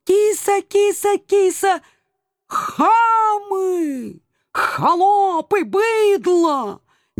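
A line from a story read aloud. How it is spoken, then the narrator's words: Sudden howl. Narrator (Russian): Неожиданно взвыл доселе молчавший агент 013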